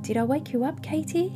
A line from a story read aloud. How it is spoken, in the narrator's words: asked in a timid voice